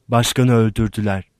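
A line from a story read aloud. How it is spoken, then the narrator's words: Plain. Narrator (Turkish): dedi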